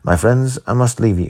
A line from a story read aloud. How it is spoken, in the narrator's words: said he